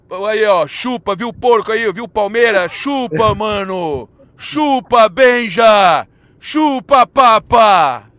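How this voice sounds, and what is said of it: Put-on São Paulo accent, mocking. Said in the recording (Portuguese): “como é que é o sotaque paulista? Imita o Kleber zoando a gente”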